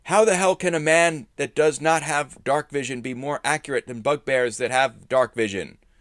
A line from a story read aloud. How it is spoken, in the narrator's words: shouting